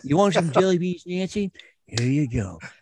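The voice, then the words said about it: Imitates another person's voice. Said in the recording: “You did a great impression. You did a great impression.”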